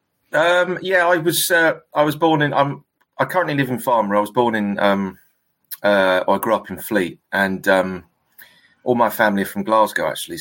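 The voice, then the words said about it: Southern English accent. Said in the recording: “you got a nice accent there, down southern accent.”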